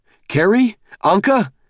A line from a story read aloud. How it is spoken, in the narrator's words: shouted